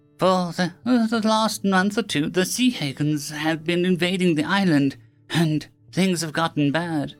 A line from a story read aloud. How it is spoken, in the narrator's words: the kid said sadly